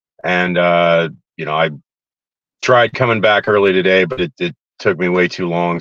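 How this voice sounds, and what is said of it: Strained voice, worn from yelling. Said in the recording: “You can obviously tell by my voice ... yelling and screaming as loud as I could be”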